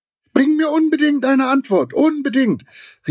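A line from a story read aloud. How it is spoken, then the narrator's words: Calling after someone. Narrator (German): rief Giraffe ihm noch nach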